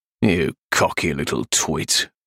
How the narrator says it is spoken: Razor growled from the hallway

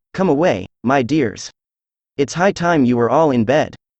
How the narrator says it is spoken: a canary called out in a trembling voice

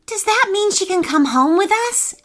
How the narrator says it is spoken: asked Hannah excitedly

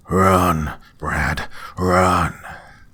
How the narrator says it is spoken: my father's voice cried out

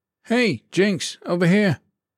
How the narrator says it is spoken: Davila called out

